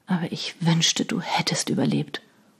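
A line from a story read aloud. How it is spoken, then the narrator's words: Remorseful murmur. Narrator (German): murmelte er zerknirscht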